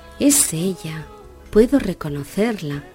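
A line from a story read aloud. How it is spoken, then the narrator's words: Exclaimed. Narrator (Spanish): exclamó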